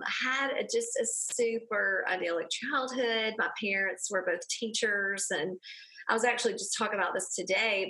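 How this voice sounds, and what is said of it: Southern Alabama accent. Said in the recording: “I am from a small town in Alabama. I'm sure none of your listeners can hear my accent.”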